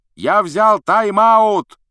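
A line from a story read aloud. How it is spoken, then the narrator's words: Shout. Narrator (Russian): прокричал Вуд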